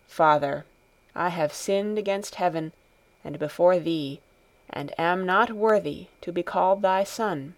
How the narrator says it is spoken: with bowed head said in a low voice

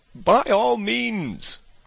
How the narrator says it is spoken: cried Bingley

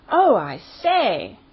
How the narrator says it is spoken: cried Lord Lambeth

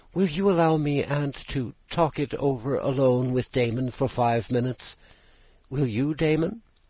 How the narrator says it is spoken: she now said anxiously

